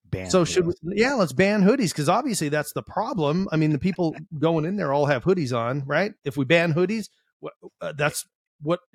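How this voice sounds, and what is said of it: Sarcastic delivery. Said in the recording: “being sarcastic”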